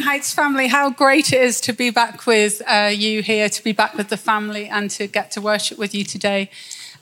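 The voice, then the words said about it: Speaks with a noticeable accent. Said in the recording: “thank you for having an accent, because it just highlights that I don't have mine anymore”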